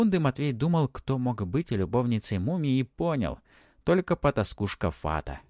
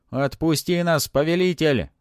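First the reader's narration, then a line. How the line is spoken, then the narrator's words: Spirits yelling. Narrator (Russian): заорали духи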